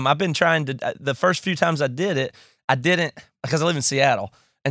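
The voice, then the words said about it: Rural redneck-sounding American accent. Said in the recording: “how stupid my accent is ... I can't talk like this ... living in Seattle and having this accent ... me being a dumb redneck”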